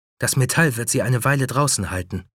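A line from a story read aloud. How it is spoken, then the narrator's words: Plain. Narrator (German): sagte Amy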